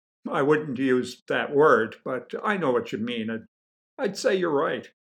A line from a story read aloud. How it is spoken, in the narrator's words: said, chuckling